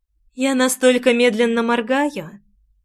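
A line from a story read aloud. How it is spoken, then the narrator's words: Unusually tender voice. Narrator (Russian): ответила не своим, а самым нежнейшим голосом из всех, которые когда-либо слышала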